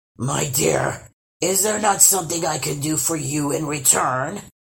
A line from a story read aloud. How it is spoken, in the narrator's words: grunted